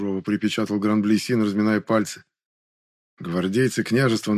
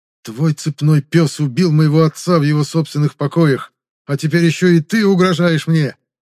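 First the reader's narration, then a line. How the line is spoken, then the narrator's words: Hateful, through gritted teeth. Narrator (Russian): процедил княжич, ненавидящим взглядом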